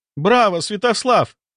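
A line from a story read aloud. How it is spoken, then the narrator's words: Shouting. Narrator (Russian): закричал Костик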